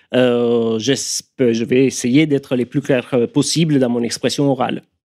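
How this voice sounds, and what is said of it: Audible Italian accent in French. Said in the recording (French): “mon accent italien qui est évidemment euh, bien, bien audible”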